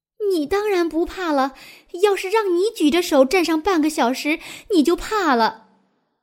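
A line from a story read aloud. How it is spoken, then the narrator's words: Breathless panting. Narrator (Chinese): 团团跑不动了，喘着气对鲁西西说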